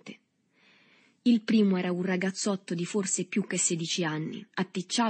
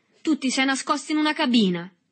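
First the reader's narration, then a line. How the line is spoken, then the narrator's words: Violent shout. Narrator (Italian): gridò con violenza Berto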